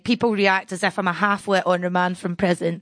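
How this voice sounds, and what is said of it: Non-posh regional accent. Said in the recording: “you can get away with anything if you have a posh accent... because of this accent”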